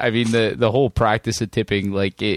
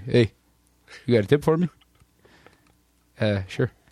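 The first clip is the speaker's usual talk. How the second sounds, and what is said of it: Badly done put-on accent. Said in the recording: “That was a terrible accent”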